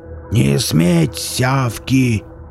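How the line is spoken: Roaring gentleman. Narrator (Russian): Взрычал этот достойный джентльмен

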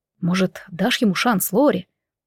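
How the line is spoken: Whispering close to ear. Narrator (Russian): шептал Кир, щекоча мое ухо губами

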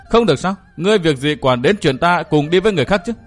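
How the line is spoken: Mocking laughing question. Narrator (Vietnamese): Chú Tiểu Ngọc bật cười mỉa mai hỏi lại

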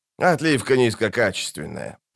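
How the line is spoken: Grumbled. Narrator (Russian): проворчал он

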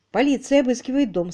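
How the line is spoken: Plain. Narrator (Russian): сказал он

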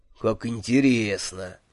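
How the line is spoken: Dreamy purr. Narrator (Russian): мечтательно промурлыкал Джуфин

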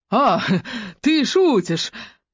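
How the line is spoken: Forced loud laughter. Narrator (Russian): Он рассмеялся преувеличенно громко, словно пытаясь показать, что действительно понял шутку

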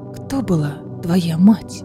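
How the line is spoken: Whispered question. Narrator (Russian): шепотом спросила Аэлина

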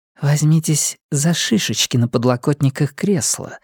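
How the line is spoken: Whisper. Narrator (Russian): шепнула Линайна

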